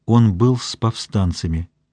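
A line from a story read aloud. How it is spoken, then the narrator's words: Quiet. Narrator (Russian): тихо сказала она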